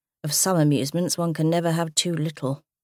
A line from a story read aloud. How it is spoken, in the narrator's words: Robert commented in a dry tone